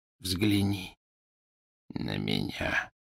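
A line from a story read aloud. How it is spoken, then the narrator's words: Whisper. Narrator (Russian): прошептал он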